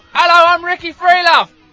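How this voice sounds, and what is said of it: Shouted imitation of another person. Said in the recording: “He just shouts his name, doesn't he? ... That's a good impression. ... of Delaney.”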